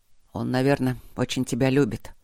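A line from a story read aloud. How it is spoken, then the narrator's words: Mutter. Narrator (Russian): пробормотал Гейб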